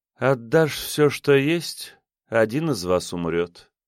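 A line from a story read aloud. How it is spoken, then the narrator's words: Sighing. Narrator (Russian): вздохнула она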